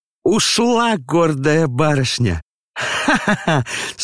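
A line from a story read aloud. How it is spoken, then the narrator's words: Hysterical laughter. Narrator (Russian): смеялась она в истерике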